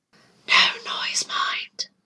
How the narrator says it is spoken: whispered

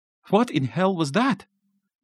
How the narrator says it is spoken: Martin asked, his voice shaking worse than the balcony had

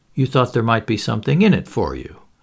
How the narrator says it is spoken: suggested Poirot smoothly

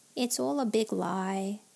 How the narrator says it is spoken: sighed Hooney

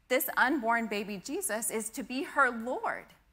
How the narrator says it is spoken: mother exclaims

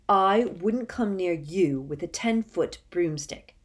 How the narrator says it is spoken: said Harry furiously

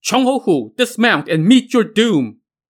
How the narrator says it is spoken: All around echoed shouts of

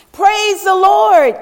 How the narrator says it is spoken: yells the lady

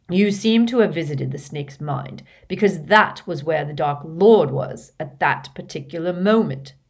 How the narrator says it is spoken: snarled Snape

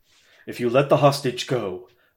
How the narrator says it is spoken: a voice said quietly

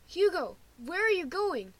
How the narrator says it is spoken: Lewis shouts

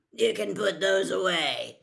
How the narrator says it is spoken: he growled

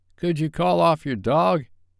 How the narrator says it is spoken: Barry's voice came weakly

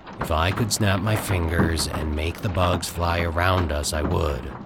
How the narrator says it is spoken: Bill continued in an unemotional tone

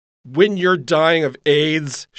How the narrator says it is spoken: she called out loudly

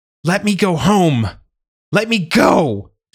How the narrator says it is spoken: she screamed

